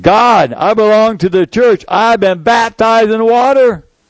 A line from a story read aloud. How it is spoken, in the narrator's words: The 3rd time I screamed